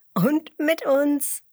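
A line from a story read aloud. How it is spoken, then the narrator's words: Giggling. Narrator (German): kichert Emmerla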